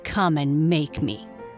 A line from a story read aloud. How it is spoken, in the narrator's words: snarled